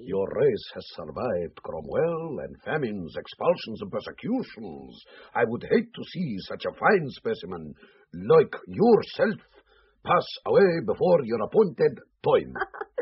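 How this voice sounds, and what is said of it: Russian-Irish accent. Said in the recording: “Your Russian-Irish accent is out of this world, Colonel.”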